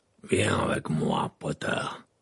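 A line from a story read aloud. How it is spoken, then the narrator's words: Growled. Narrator (French): grogna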